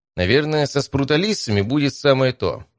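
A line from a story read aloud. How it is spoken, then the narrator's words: Thoughtful. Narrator (Russian): задумчиво сказал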